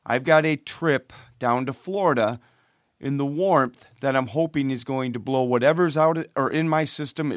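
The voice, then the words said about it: Hoarse, fading voice from illness. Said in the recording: “I'm starting to lose my voice. I am sick yet again.”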